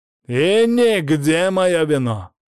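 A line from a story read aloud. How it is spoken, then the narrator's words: Barking shout. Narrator (Russian): гаркнул я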